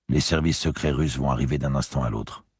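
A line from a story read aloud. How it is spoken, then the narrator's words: Flat toneless voice. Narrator (French): fit-il d'une voix atone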